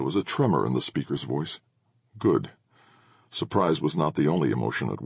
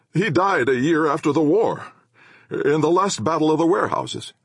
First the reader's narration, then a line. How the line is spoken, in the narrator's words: someone called out